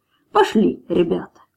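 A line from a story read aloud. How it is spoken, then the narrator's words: Calm. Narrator (Russian): Капитан спокойно сказал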